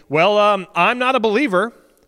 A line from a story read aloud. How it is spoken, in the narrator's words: his seat partner declared a little too loudly